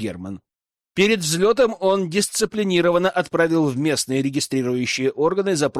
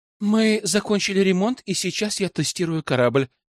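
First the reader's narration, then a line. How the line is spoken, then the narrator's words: Girl answering with heavy sigh. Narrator (Russian): тяжело вздохнув, ответила девушка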